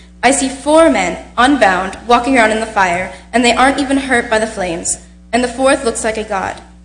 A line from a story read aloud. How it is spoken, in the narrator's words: said Nebuchadnezzar, shouted